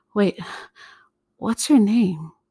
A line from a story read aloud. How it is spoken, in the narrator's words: she chuckled